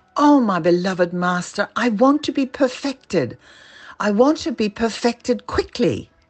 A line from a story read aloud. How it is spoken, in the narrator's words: her impatience for spiritual growth caused her to exclaim